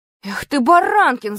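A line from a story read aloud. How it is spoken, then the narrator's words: Yelling. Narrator (Russian): заорал на меня Венька Смирнов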